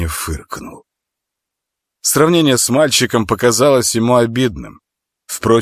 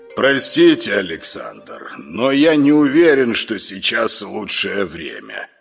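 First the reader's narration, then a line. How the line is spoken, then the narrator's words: Grumbled. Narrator (Russian): пробурчал номер 6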